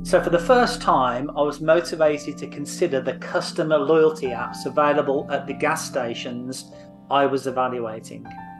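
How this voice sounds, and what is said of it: Unusual, noticeable accent. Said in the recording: “I know I have a funny accent”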